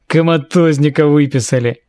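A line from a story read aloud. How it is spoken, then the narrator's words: Deep bass voice. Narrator (Russian): Пробасил другой голос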